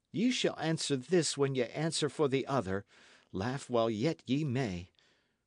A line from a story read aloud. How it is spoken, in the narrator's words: cried the lad, flushing